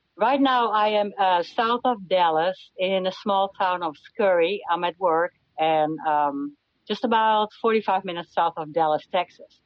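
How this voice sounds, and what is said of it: Non-Texan foreign accent. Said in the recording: “those Texas accents really changed, didn't they ... I've never heard a Texas accent like that”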